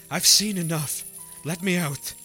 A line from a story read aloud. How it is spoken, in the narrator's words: I choked out